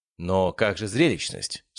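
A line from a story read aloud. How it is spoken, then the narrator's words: Plain. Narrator (Russian): спросил Джин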